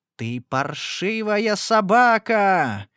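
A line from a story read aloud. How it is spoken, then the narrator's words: Furious shouting. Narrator (Russian): закричала я, впадая в бешенство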